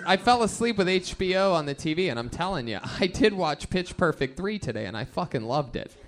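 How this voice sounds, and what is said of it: Usual voice. Nothing is said of it.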